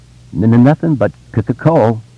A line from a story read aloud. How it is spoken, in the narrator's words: Bill said and giggled nervously